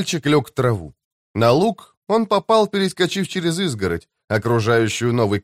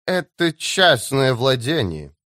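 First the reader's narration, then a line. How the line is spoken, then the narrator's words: Through gritted teeth. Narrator (Russian): процедила она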